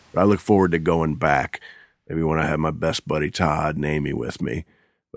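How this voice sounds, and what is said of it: Strained, recovering voice after illness. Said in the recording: “my voice went away completely. It's just now coming back. If my voice sounds strange”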